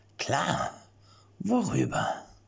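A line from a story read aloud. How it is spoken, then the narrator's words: Lurking, watchful voice. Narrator (German): fragte Jan mit lauernder Stimme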